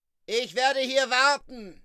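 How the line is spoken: Shouting across. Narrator (German): Asaselo schrie herüber

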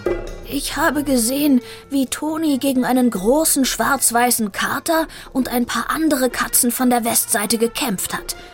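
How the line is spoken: Hissing snarl. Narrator (German): fauchte Shiva

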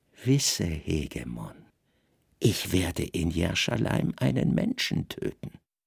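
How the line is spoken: Whispered. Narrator (German): Levi … flüsterte

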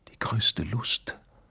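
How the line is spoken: Whispering. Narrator (German): hatte sie geflüstert

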